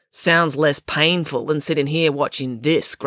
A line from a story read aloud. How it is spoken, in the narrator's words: grumbled April